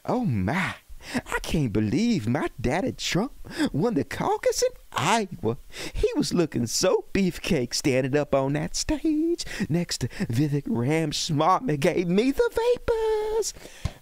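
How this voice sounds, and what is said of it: Imitates another person's voice. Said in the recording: “I am here for Lindsey Graham impersonation.”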